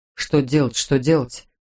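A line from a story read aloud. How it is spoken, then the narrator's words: Bewildered muttering. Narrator (Russian): бормотал Верзила с потерянным видом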